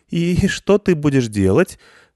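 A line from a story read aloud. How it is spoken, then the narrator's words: Slightly trembling voice. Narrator (Russian): слегка дрогнувшим голосом сказала Элина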